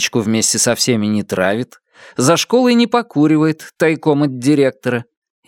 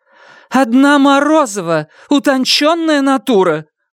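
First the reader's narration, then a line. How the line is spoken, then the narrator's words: Ardent exclamation, teacher. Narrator (Russian): пылко воскликнула учительница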